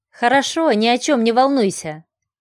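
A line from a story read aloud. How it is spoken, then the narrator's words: Firm, confident voice. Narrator (Russian): твердым голосом ответила Варя, удивляясь, как это у нее получилось так уверенно произнести это вслух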